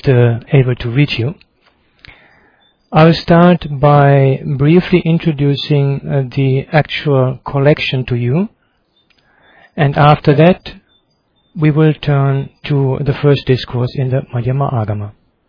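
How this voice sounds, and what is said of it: Slightly congested voice from a cold. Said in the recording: “I have a little cold, but I hope that my voice is”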